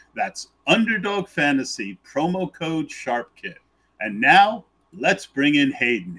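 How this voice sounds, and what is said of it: Stadium announcer radio voice. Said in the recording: “you have ideal, like, stadium announcer voice, radio voice? When you're reading that, I can just picture you announcing the player names at the Coliseum.”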